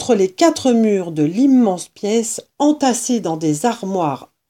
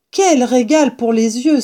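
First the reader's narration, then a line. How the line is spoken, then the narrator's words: Gleeful exclamation while dancing. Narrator (French): s'écria en sautant et dansant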